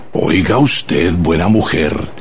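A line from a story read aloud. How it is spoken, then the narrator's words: Low, grim, menacing. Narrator (Spanish): le dijo en voz baja, sombría y amenazadora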